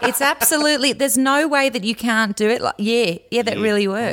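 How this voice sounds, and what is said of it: Put-on Australian accent. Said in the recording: “if we do English with a screwed-up hot face, then it becomes a little bit Australian ... I can't go back to my own accent ... Pretty good. Pretty good.”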